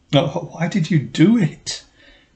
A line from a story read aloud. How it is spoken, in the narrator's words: they groaned